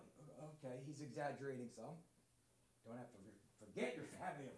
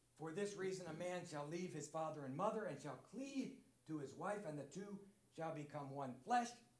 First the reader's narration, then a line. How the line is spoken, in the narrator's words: cried out in amazement